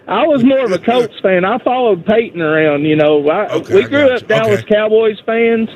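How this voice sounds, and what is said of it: Strong distinctive regional accent. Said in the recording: “I love your accent, by the way. I could literally listen to you all night long ... what an accent that guy's got.”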